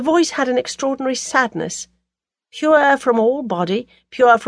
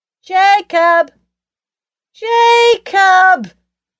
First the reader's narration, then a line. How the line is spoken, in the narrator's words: shouted Archer, lagging on after a second